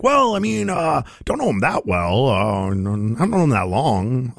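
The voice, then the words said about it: Troy Jackson impression. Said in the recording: “pretty good Troy Jackson impression”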